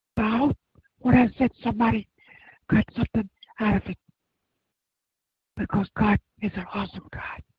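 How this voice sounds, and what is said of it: Strained, tired voice giving out. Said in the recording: “I'm about to give out. God, I can't talk for so long. My voice is stuck in soft, and I start straining.”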